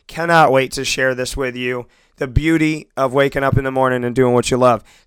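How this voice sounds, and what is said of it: Slightly hoarse voice. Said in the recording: “I know that I'm a little bit hoarse”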